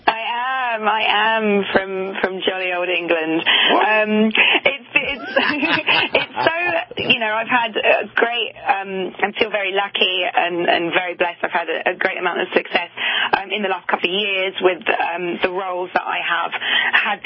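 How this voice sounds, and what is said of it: London English accent. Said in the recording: “you have this great London accent ... you're from jolly old England”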